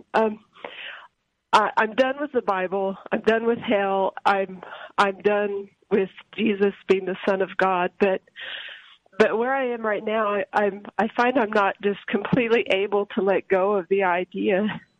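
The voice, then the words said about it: Emotional, choked-up voice. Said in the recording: “I'm sorry, I'm getting emotional.”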